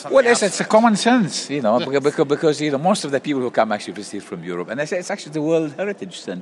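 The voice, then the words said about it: London accent. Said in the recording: “you're obviously a Londoner originally”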